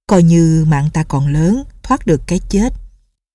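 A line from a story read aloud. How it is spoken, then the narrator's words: Smiling. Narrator (Vietnamese): Lệnh Hồ Xung mỉm cười nói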